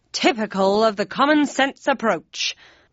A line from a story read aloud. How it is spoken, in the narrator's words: barked Kane